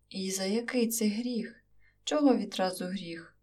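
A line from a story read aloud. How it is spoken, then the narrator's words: Groaning woman. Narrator (Ukrainian): аж простогнала сусідка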